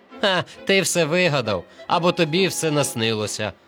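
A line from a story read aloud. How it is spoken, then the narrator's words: Laughing mockery. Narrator (Ukrainian): сміялися вони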